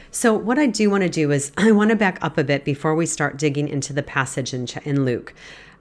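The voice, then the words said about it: Congested, stuffy-nosed voice. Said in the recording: “I'm a little congested today, so I so apologize if I sound a little congested ... you're just going to get a little bit of stuffiness from me today”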